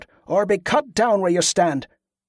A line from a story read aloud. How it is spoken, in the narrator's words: Donal called out